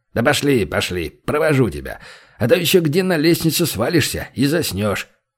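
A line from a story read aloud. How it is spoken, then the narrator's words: Wry snort. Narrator (Russian): хмыкнул Банк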